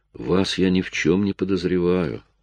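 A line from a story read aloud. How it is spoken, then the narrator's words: Calm. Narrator (Russian): сказал Джейк также спокойно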